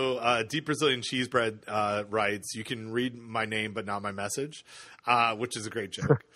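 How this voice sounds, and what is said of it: Usual voice. Nothing is said of it.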